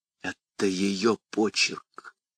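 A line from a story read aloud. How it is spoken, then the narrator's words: Whisper. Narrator (Russian): прошептала Шарон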